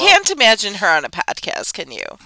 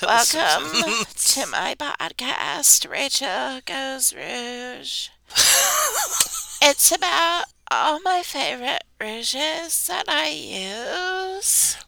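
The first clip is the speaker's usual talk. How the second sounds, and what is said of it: Vocal fry imitation. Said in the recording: “that vocal fry?”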